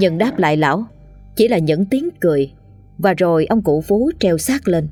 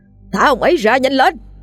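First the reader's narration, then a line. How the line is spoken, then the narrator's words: Straining desperate scream. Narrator (Vietnamese): Lão sư phụ cố gắng gào thét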